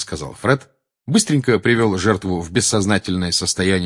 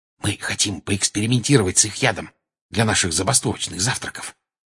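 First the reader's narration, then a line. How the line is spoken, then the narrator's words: Very quiet. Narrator (Russian): очень тихо объяснил Джордж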